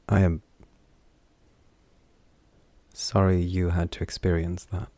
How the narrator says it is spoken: he said quietly

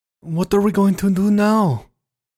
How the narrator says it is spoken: Her voice was cracked with desperation

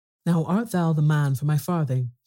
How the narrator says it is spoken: cried the messenger

